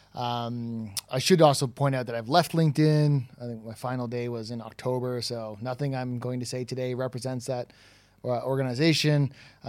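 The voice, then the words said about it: Toronto Canadian accent. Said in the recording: “My accent is from Toronto”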